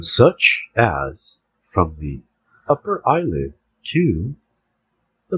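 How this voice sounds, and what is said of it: Mock NPR radio announcer voice. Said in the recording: “I'm using my NPR voice ... this is an NPR radio voice”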